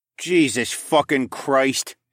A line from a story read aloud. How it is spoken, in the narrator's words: he groaned